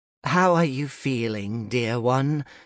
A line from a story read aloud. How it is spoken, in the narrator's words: she asked, her voice a melodious balm